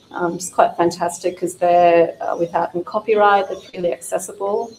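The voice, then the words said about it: Hoarse voice. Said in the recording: “my voice is getting hoarse.”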